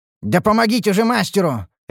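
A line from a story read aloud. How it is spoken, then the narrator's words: Barked command. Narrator (Russian): рявкнул я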